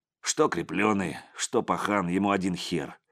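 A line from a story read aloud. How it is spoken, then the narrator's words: Grumbling. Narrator (Russian): проворчал один из тобольцев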